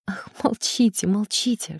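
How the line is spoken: Whispering. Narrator (Russian): шептала она

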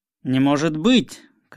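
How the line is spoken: Shouting captain. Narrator (Russian): кричал капитан

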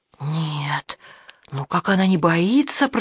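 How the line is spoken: Whisper. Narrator (Russian): прошептала она

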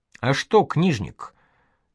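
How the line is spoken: Quiet question. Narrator (Russian): так же тихо спросил Бусыга

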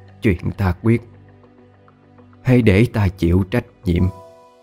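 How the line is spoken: Smiling whisper to herself. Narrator (Vietnamese): bà tự mỉm cười thì thầm nói với chính mình

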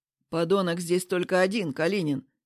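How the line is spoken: Rude, curt. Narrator (Russian): грубо бросает Вадим

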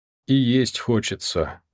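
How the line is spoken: Sad. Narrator (Russian): грустно сказал Яков

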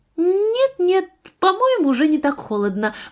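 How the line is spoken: Cheerful reply. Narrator (Russian): бодро ответила Софи

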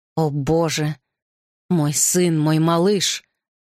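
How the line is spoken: Crushed, tearful mutter. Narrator (Russian): Упавшим голосом пробормотал Гарри, и по его лицу покатились слезы

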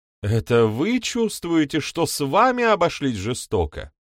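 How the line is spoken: Tearful exclamation. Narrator (Russian): воскликнула со слезами на глазах

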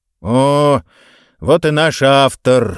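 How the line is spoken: Weary exhaled greeting. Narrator (Russian): выдохнул директор, которому, похоже, до смерти надоело принимать удар на себя, развлекая иностранных гостей

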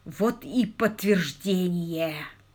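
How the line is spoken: Groaning. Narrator (Russian): простонал он

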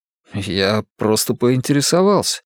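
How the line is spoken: Embarrassed mumble. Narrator (Russian): смущенно пробормотал Луис

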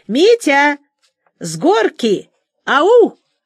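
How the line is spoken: Yelling at full voice. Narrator (Russian): Аня вопила, что есть мочи

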